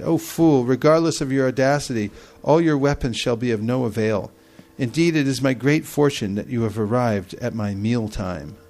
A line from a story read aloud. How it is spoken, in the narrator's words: Lavanasara simply laughed with derision and said